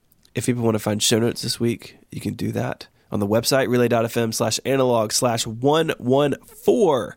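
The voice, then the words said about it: Sick, congested voice. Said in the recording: “since you're sick ... I would settle for being able to breathe easily”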